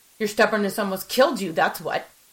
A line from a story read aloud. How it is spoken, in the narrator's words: I snapped, my anger rising